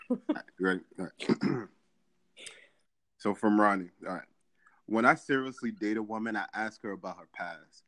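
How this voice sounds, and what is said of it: Sexy radio announcer voice. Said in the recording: “You have a radio voice though. Like mine is more high pitched, annoying. ... I'm gonna read it in my sexy radio voice.”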